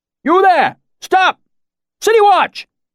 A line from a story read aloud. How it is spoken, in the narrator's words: a new voice shouted